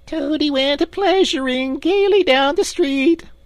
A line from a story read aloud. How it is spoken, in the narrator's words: the Chief Weasel began in a high, squeaky voice